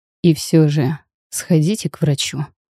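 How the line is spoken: Dry. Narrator (Russian): сухо произносит

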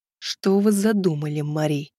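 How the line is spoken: Barely audible hiss. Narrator (Russian): прошипел он еле слышно в ее ухо

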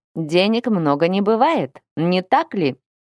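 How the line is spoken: Grunt. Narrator (Russian): Интарн хмыкнул

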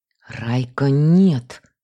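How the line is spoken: Hoarse wheeze, repeated. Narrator (Russian): снова просипела я

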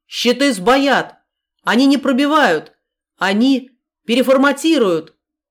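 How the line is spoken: Technician shouting. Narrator (Russian): крикнул кто-то из техников

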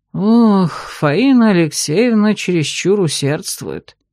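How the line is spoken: Sighing. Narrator (Russian): вздохнул Владимир Викентьевич

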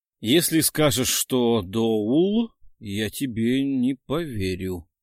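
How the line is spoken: Muttering. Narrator (Russian): пробормотал Дронго

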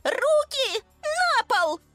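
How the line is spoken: Shrieked command. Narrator (Russian): взвизгнула Лиза

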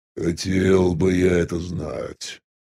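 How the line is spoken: Grumbling mutter. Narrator (Russian): буркнул Фагот

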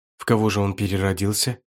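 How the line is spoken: Frightened goddess asking. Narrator (Russian): испуганно спросила богиня небесных зеркал

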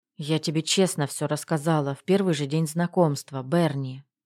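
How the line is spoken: Mumbling through dry lips. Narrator (Russian): бормочу пересохшими губами

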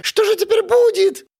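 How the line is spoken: Frightened clamor, monkeys. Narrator (Russian): испуганно шумели обезьяны

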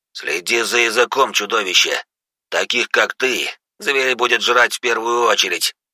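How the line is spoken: Growling. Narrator (Russian): прорычал он

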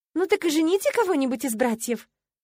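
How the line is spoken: Cheerful suggestion. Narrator (Russian): радостно подсказала я

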